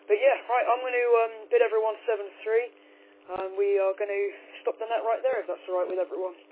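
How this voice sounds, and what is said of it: Strained, worn-out voice. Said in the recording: “I think I need to rest up my voice a little bit ... I've got a bit of a cold, so hopefully I don't lose my voice again, and now I can tell it's getting a little bit worse”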